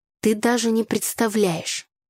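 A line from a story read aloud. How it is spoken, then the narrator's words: Displeased voice. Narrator (Russian): недовольным голосом начал Игорь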